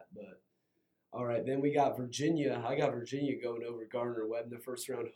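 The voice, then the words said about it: Slightly hoarse voice. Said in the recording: “I've been feeling a little bit under the weather the past few days, so my voice is a little bit hoarse right now.”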